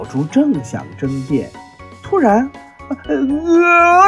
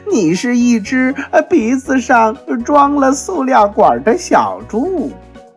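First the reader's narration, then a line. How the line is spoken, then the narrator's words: Laughing loudly. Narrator (Chinese): 袋鼠大笑着说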